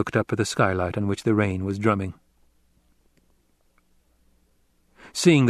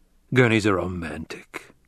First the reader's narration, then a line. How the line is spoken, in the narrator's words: the Duke growled